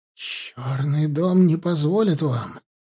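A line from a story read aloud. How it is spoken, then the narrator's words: Whispering. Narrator (Russian): шептала Дордот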